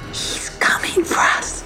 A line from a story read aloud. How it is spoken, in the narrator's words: whispered Tula